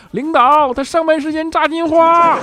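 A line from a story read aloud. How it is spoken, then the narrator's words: Loud shout. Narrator (Chinese): 调调冲着怪叔叔大声喊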